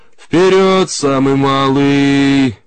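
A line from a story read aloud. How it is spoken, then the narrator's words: Shouted through megaphone. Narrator (Russian): крикнул в рупор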